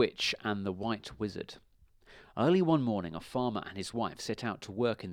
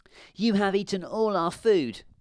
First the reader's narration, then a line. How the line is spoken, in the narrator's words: the little girl cried